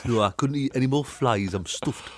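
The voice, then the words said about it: Frog voice with Geordie accent. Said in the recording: “a Geordie Frog ... a Newcastle accent”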